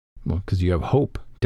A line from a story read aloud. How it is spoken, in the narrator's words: Dalinar whispers, smiling